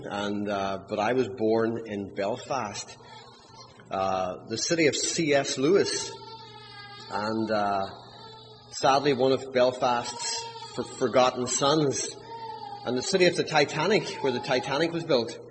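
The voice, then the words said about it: Scots-Irish accent. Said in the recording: “allow your ears to attune to my accent ... My accent is Scots-Irish. It's not classic Irish. It's not classic Scots. It's midstream”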